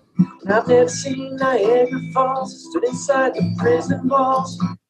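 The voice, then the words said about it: Southern American country accent, singing. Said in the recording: “I've never heard ... with an American accent before. ... that's a Southern American accent ... Sounds a bit country”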